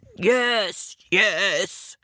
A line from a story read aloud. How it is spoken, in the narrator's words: grunted